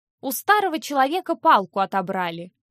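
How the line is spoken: Shrill, squealing voice. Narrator (Russian): визгливо сказал он

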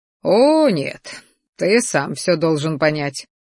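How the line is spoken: Smug snort, lizard. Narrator (Russian): хмыкнул ящер, довольно щурясь

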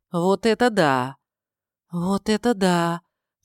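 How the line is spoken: Breathed close to ear. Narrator (Russian): выдохнула над ухом Тайма

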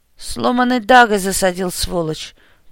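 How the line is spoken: Pained gasp, grim smirk. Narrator (Russian): выдохнул Кирилл, договорил с мрачной ухмылкой

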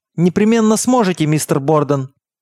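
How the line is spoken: Excited falsetto shout. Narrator (Russian): выкрикнул он, и от волнения голос его зазвучал фальцетом

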